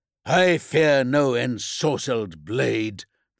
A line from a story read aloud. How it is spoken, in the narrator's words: the prisoner spat